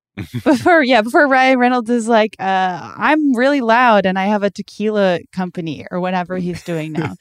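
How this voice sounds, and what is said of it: Loud imitation of another person's voice. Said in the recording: “That's my impression of Ryan Reynolds. I'm really loud.”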